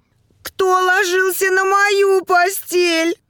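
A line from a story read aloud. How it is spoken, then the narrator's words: Sudden shout. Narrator (Russian): вдруг как закричит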